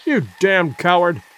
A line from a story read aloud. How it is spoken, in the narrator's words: cried the young man